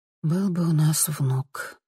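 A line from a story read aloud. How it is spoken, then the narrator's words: Sighing. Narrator (Russian): вздохнула Лиса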